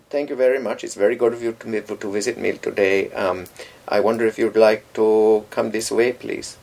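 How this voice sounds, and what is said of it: Put-on Indian accent, not very good. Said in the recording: “That's a sort of an Indian accent... Obviously, I can't do the accent particularly well... I wasn't particularly being grotesque”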